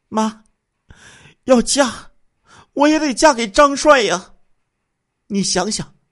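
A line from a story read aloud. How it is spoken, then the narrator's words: Crying, pleading. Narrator (Chinese): 王春兰哭着 哀求母亲说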